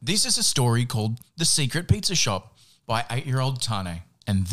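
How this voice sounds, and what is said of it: Usual voice. Nothing is said of it.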